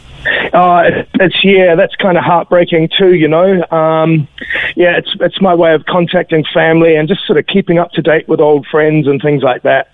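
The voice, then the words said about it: New Zealand accent. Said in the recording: “anyone can tell from your accent, you're a New Zealander.”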